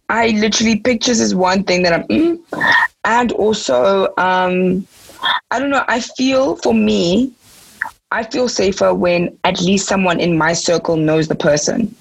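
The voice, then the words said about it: Raspy voice. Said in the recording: “my voice is getting raspy”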